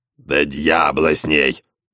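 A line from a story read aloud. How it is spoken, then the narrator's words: Grumbling from cockpit. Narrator (Russian): ворчал из пилотской кабины Эдуардо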